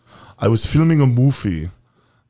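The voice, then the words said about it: Imitates another person's voice. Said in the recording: “I wanted to do an Arnold impression.”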